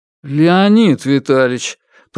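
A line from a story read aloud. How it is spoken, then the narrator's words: Mumbling young man. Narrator (Russian): промямлил молодой инженер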